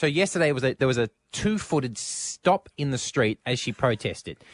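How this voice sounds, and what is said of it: Usual voice. Nothing is said of it.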